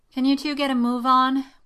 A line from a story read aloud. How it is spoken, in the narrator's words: grumbled Morgana